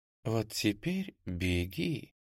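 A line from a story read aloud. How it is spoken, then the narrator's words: Fairy's whisper. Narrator (Russian): прошептала фея Моргана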